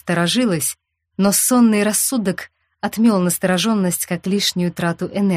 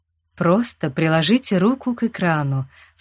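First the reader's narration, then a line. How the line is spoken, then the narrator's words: Insinuating request. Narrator (Russian): вкрадчиво попросил Езенграсс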